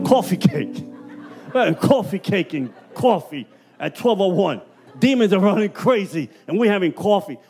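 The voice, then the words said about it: Puerto Rican accent. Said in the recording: “My Puerto Rican accent is killing you.”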